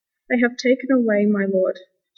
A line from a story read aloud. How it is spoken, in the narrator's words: she said